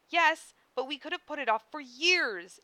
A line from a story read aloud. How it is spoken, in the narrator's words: Issei exclaimed, struggling to keep his voice low